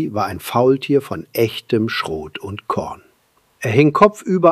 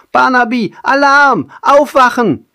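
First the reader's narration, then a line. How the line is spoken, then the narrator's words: Shrieking. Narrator (German): kreischte Pippo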